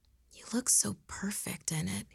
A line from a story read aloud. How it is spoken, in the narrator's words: he whispered